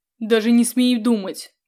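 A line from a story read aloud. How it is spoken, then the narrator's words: Growled from behind. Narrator (Russian): прорычал сзади Сандалф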